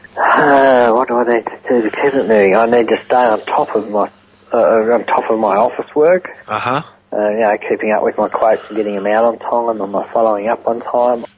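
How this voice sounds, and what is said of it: Australian accent. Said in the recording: “This is an Australian accent.”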